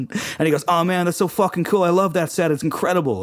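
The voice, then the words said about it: Imitated American accent. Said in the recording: “American guy, American accent.”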